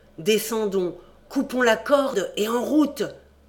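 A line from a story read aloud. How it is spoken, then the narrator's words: Whining question. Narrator (French): Jean me répondit par cette gémissante interrogation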